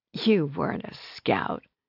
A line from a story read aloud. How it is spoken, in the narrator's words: said between giggles and sighs